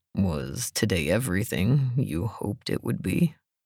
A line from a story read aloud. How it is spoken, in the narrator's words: he asked, his voice more gravelly than usual